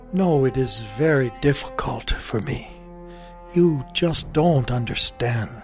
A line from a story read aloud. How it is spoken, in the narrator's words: sadly shook his head and said